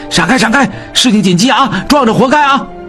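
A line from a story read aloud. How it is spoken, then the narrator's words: Urgent shouting while running. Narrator (Chinese): 秉坤心中一急，边跑边喊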